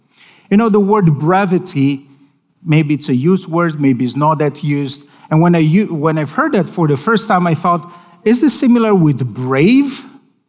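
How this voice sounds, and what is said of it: Non-native English accent. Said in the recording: “Probably you know that by my accent, English is my second language.”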